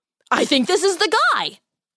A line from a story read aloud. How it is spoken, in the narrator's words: said Henry excitedly